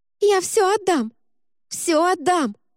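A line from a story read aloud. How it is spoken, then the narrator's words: Wailed. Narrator (Russian): завопила черноглазая незнакомка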